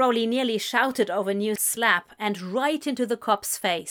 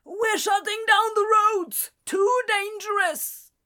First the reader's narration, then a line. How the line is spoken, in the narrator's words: the man yelled over the wind